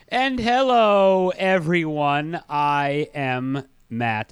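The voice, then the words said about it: Very slow speech. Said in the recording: “I'm talking really slowly”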